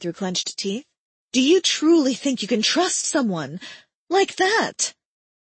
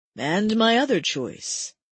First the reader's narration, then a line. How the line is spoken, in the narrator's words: Timber asked in a calm voice